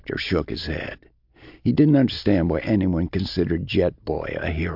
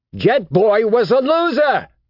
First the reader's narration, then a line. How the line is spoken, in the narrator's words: he yelled at the kid